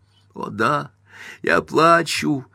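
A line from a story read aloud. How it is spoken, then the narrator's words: Tearful exclamation. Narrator (Russian): воскликнула Эйлин сквозь слезы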